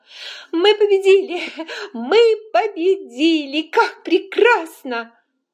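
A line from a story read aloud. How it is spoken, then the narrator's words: Laughing. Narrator (Russian): Ред рассмеялся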